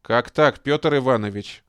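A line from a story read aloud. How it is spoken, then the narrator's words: Stern address. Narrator (Russian): строго обратился он к Хрущу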